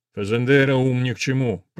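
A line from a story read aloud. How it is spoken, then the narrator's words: Grumbling. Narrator (Russian): пробурчал полковник Мурау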